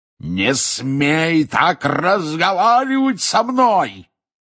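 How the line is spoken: Furious roar. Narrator (Russian): яростно взревел дядя Вернон

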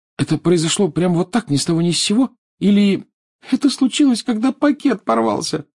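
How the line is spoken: Sobbing. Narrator (Russian): всхлипнула Лиана

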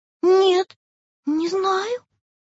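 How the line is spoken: Trembling voice. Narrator (Russian): произнесла дрожащим голосом пчелка

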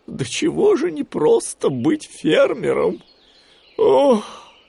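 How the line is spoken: Sighing. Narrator (Russian): вздохнул Гуфи

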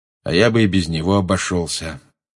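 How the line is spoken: Gloomy, muffled. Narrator (Russian): мрачно сказал Люпин из-за своей книги

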